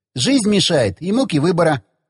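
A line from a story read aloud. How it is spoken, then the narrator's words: Laughing. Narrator (Russian): засмеялся он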